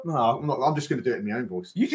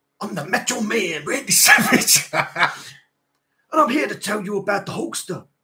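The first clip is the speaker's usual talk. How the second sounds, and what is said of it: Weak Macho Man Randy Savage impression. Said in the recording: “This ain't going to be a very good Macho Man impression. I'm not very good at doing his voice.”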